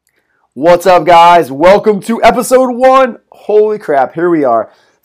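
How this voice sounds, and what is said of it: Loud, yelling delivery. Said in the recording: “why are you yelling?”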